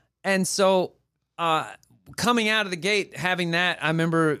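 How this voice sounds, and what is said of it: Usual voice. Nothing is said of it.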